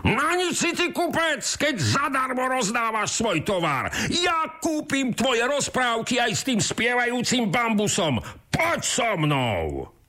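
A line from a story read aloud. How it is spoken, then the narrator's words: Shouting. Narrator (Slovak): kričí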